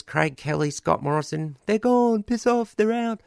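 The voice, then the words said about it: Imitates a cricket commentator's voice. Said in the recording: “imitating cricket commentators a few weeks ago in my best Bill Laurie voice”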